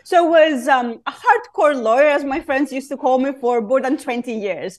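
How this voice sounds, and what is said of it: Greek accent. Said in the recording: “my Greek accent”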